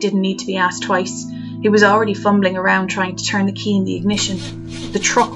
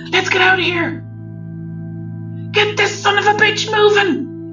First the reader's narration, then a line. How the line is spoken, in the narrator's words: Alan shrieked hysterically